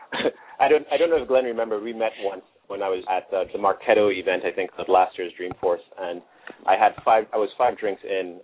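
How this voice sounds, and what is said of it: Speaks with a noticeable accent. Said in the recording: “having another person with an accent, so I appreciate your accent. ... Everyone, this is an accent.”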